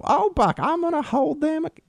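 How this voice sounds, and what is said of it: Imitated Southern woman's accent. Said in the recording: “she's got that southern, she's kind of got like a, you know,”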